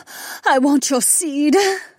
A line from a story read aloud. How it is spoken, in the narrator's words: the soldier moaned